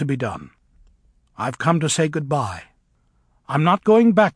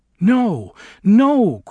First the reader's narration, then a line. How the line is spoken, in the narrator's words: cried Glinda